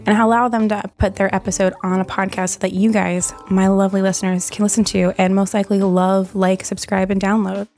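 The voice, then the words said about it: Hoarse voice cutting in and out. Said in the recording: “Sorry as my voice goes in and out. I'm like losing my voice”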